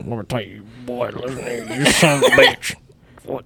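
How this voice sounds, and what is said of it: Put-on old man voice. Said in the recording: “why are you imitating Morgan Freeman right now? ... This is more like ... as an old man.”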